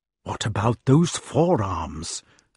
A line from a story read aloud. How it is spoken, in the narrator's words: asked a badger gravely